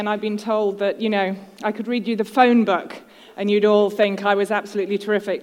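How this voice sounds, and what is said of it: British accent. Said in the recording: “the voice of a Brit ... an accent that's absolutely wonderful”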